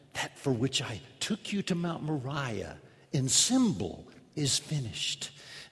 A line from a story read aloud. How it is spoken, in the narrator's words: Father Abraham heard that word and whispered to Isaac, his son